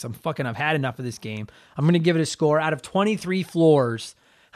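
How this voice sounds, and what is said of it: Strained voice, losing their voice. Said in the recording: “I've been talking by myself for 45 minutes. I'm losing my voice.”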